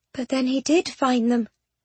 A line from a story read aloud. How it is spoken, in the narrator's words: Penelope said quietly